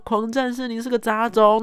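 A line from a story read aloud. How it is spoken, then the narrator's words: Shouting. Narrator (Chinese): 我就喊说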